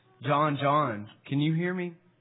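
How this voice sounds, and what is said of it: Deep voice. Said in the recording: “deep voice.”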